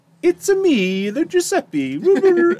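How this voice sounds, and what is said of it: Exaggerated Mario-style Italian accent. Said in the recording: “the voice and the accent are borderline offensive... it's Mario level”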